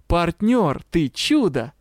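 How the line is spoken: Joyful exclamation. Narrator (Russian): радостно воскликнул Юрао

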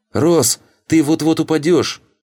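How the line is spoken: Shouted. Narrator (Russian): крикнула

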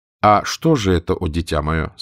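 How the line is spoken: Plain. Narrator (Russian): спросил визирь

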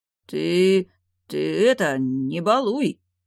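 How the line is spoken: Hesitant deep bass. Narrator (Russian): Неуверенно пробасил Веденей

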